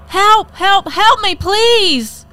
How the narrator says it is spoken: She yells

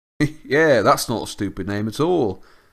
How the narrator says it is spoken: said Ron sarcastically

